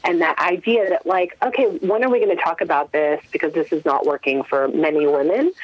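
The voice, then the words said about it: American accent. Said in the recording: “you can tell from my accent, I'm an American”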